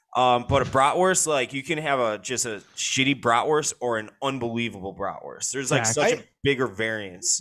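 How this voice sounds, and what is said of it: Chicago accent. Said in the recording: “your Chicago accent every time you say the word bratwurst”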